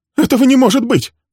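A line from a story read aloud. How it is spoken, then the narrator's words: Sharp cry. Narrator (Russian): вскрикнула она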